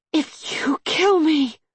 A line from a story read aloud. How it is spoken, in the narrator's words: she managed to wheeze out